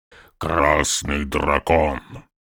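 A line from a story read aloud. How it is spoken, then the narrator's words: Grumbling orc. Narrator (Russian): проворчал первый орк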